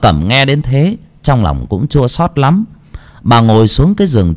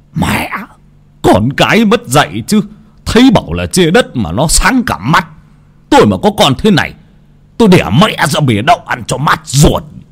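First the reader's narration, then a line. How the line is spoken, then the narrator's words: Hissing shriek. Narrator (Vietnamese): Ông Tám rít lên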